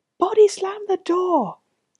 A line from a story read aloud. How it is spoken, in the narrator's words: yelled